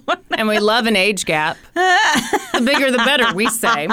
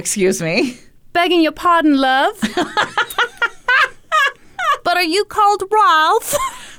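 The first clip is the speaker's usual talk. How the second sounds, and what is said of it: Put-on British accent. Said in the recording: “listen to you doing a British accent”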